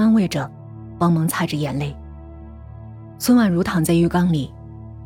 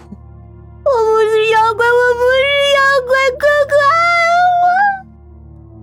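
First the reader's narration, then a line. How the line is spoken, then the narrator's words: Crying. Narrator (Chinese): 沈蓉蓉……哭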